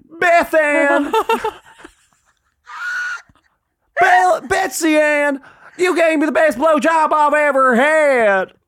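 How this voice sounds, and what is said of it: Put-on American Southern accent. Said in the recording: “We're going to start with what we all know best, which is Southern.”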